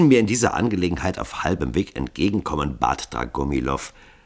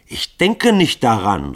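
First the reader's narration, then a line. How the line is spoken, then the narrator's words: Called out. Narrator (German): rief Grunja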